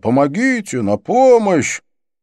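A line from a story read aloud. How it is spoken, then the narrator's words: Shout. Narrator (Russian): прокричал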